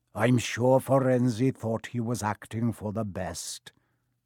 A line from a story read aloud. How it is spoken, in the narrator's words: he said in his gloomy voice